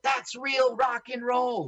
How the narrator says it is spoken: they would scream out

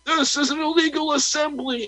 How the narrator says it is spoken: he shouted through the megaphone

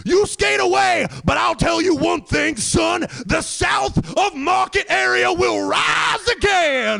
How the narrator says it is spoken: yelling at me as I go away

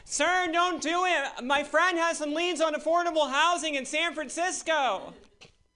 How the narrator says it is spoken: shout

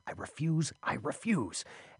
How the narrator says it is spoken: muttering this under his breath

